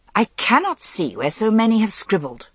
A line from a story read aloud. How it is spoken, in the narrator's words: said Lancelot impatiently